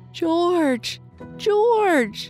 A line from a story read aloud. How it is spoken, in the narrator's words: she cried when she could speak